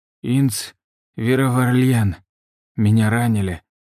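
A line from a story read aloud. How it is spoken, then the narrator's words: Hoarse wheeze. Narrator (Russian): прохрипел ее муж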